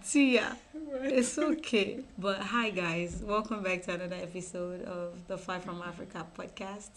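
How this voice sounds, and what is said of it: Sick-sounding, low-energy voice. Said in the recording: “You can hear in my voice, I feel so sick ... we sound calm. I know this is not our usual energy”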